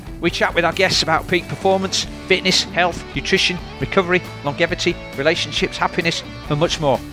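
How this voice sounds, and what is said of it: Yorkshire accent. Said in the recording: “you'll always hear a Yorkshire accent”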